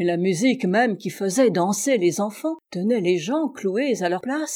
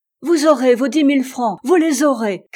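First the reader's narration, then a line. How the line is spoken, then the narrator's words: Mayor shouting. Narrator (French): cria le maire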